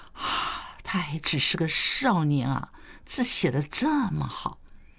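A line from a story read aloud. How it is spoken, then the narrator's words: Admiring. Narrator (Chinese): 谢朗忍不住赞叹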